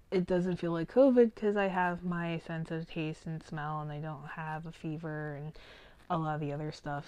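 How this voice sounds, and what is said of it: Deep, hoarse sick voice. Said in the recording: “As you can tell by the sound of my voice ... I sound like a sexy midnight DJ, I am horribly, horribly sick, and I'm on the verge of losing my voice”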